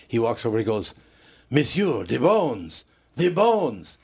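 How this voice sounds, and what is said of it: Put-on French accent. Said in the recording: “The waiter, who had kind of a French accent, working in an Italian restaurant, but he has a French accent,”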